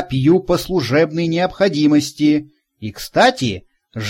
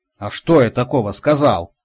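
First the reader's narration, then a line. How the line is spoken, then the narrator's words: Grumbling. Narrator (Russian): проворчал Карлсон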